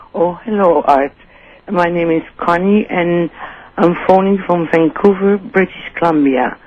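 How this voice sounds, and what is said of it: Dutch accent. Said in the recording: “that's some accent you have there ... Not typical Vancouver. ... From Holland.”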